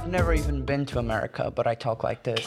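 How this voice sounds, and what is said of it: East Coast American upper-class accent. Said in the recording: “East Coast American privilege wasp woman”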